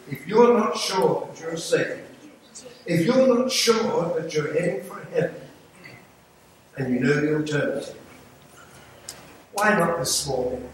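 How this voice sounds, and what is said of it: English accent. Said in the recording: “You hear my voice in the English accent.”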